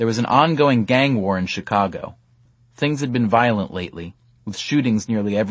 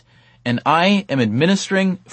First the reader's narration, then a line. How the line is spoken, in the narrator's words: Venkatesh sputtered, sticking to his survey script